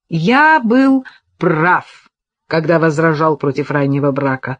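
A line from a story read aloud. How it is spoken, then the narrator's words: Snort. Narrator (Russian): хмыкнул Патрик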